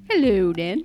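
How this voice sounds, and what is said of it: Poor put-on British accent. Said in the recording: “That was kind of British. ... That was terrible. ... That was awful British accent.”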